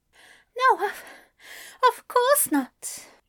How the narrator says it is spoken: he panted

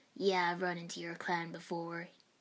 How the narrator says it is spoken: he chuckled

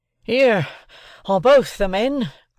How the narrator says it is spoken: panted the sergeant, struggling at the bottom of a ditch

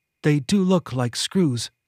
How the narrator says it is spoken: Quinn said

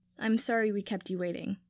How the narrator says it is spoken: Draco said

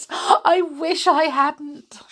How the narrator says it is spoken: she sobbed

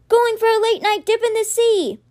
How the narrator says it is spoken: Alex, still running, yelled

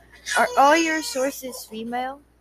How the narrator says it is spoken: grunted

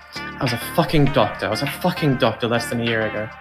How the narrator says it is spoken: Jonathan mumbles to himself

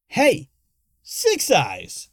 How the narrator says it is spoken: shouted

